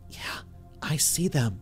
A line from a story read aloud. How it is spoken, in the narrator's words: she whispered